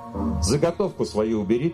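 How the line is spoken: Firm. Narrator (Russian): твердо сказала Мила

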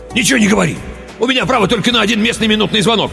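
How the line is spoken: Rapid chatter. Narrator (Russian): тараторил он

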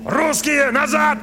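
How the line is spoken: Shouted. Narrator (Russian): крикнул он

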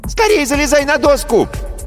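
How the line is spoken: Girlish squeal. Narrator (Russian): взвизгнул девчачий голос

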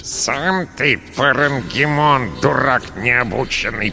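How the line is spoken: Creaky rat voice. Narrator (Russian): проскрипела крыса

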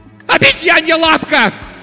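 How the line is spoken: Wild scream. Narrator (Russian): дико кричала она

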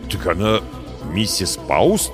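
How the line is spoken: Confused mumble. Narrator (Russian): растерянно пробормотал я

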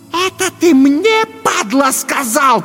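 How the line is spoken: Hiss, woman. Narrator (Russian): прошипела дама

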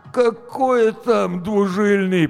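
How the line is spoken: Groan. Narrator (Russian): простонал Гоша

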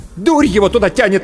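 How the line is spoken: Angry reply. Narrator (Russian): зло ответила Анна

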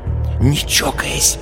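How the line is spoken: Warning whisper. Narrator (Russian): упреждая, шепнула Люся Кашину

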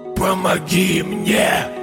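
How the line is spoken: Hoarse rasp. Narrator (Russian): прохрипел

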